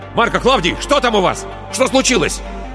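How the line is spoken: Shout. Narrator (Russian): закричал

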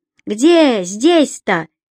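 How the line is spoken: Woman's shout. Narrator (Russian): выкрикнул женский голос

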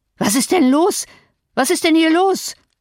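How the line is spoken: Breathless gasp. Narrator (German): eilte er hinunter, zwei Stufen auf einmal nehmend, und keuchte

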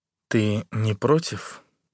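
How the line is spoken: Hoarse with desire. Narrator (Russian): Горло мне сдавливает от внезапного желания, и вопрос звучит хрипло

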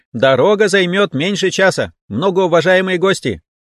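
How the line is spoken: Loud announcement. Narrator (Russian): Громко уведомил всех

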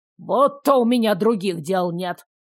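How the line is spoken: Scoffing snort. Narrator (Russian): фыркнул Чудов

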